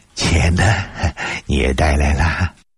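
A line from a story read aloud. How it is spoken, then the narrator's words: Surprised laugh. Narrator (Chinese): 他哑然失笑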